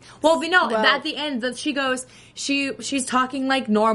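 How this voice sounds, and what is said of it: Usual voice. Nothing is said of it.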